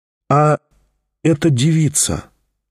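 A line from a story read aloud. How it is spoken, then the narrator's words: Very timid. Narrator (Russian): очень робко начал опять Тихон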